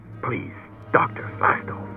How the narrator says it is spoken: he muttered

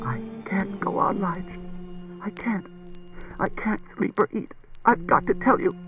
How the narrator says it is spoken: Jessie said through a sudden torrent of sobs, in a low voice that could scarcely be made out

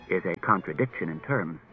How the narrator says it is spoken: Daniil evenly

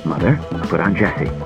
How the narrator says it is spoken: He said in a low voice

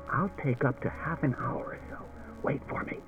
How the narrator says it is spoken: He whispered to Daniil

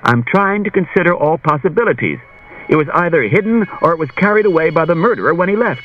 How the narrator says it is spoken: Bailey said impatiently

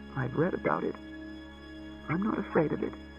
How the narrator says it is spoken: she mumbled

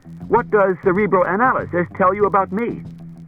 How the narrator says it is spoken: said Bailey sharply

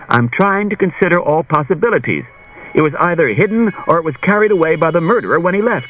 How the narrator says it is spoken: Bailey said impatiently

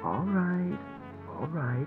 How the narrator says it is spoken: he said soothingly

